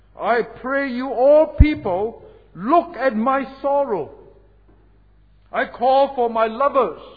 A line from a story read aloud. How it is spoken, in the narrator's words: He cried